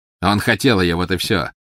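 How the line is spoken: Mocking. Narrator (Russian): насмешливо сказал Волан-де-Морт

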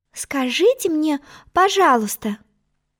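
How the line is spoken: Timid. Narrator (Russian): начала она, робко

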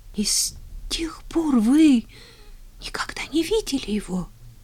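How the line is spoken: Tearful, stammering. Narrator (Russian): Со слезами на глазах, заикаясь, выговорила Поляна

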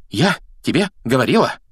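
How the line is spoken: Breathless exhale. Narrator (Russian): выдохнула Гермиона, держась обеими руками за грудь

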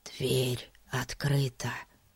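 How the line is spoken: Whispered. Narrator (Russian): шепнул Фати

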